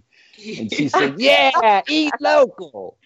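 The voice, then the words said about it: Imitates another person's voice. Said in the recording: “that's a great impersonation. You sound just like her.”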